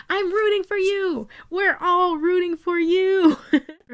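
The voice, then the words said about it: Tyra Banks impression. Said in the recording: “In my Tyra Banks voice.”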